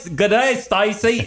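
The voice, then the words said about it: Poor put-on Australian accent. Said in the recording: “Is that a better Australian accent? ... Man, that's horrible. ... It's gotten worse. ... My accent is getting worse.”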